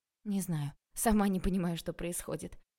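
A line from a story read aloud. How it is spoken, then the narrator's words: Hoarse reply. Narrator (Russian): хрипло ответила Таня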